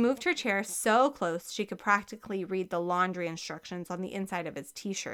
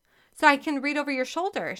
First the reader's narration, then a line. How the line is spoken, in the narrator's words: she added quickly